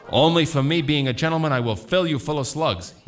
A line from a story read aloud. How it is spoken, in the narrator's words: he yells